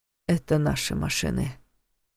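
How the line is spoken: Gloomy. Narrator (Russian): мрачно заметил Войтых

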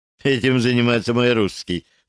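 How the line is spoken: Laughing. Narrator (Russian): засмеялась Наташа

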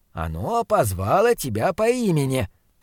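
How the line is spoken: Encouraging mutter. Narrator (Russian): поощряюще пробормотал фон Хеллинг

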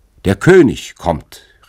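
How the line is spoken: Bird calling out. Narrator (German): rief ein prächtiger Vogel

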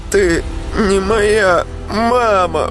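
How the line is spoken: Shout. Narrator (Russian): выкрикнула она

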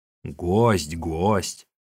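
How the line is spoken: Grumbling. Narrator (Russian): ворчал человек

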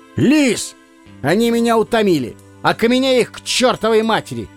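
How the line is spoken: Shout. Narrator (Russian): крикнул

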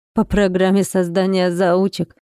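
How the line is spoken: Mocking laugh. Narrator (Russian): Рассмеялся он, глаза светились ехидством

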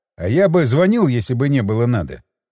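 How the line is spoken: Scoffing snort. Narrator (Russian): хмыкнул я

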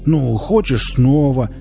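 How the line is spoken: Yelling louder than before. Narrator (Russian): Девушка передохнула и теперь завопила пуще прежнего

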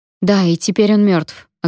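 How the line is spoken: Snapping. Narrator (Russian): огрызнулась я

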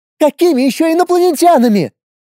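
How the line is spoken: Shouting again. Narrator (Russian): Снова закричала она

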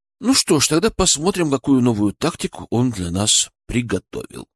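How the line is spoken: Calm reply. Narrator (Russian): спокойно ответил

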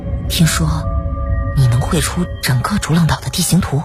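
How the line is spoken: Hushed voice. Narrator (Chinese): 再次压低声音

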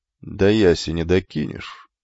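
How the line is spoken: Calm question. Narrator (Russian): спокойно спросил кентавру и Фикла

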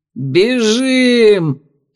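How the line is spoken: Bark. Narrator (Russian): рявкнул он

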